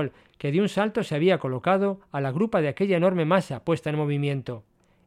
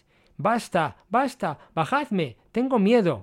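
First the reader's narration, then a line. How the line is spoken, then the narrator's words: Desperate screaming. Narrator (Spanish): gritaba Costar haciendo gritos de desesperación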